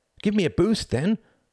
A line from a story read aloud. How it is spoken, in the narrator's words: cried Tom